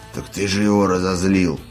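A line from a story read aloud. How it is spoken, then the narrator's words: Grumbling. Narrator (Russian): пробурчал Корт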